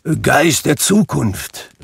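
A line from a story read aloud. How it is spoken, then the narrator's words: Calling out. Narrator (German): rief er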